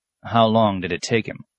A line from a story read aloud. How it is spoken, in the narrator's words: the apprentice asked